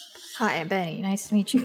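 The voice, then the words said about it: Character voice with an accent. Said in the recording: “There's your accent.”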